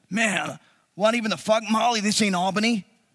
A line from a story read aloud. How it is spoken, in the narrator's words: started yelling